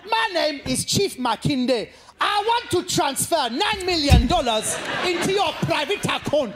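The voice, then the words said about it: Put-on Nigerian accent. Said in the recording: “if anybody wants to learn a Nigerian accent, it's very simple”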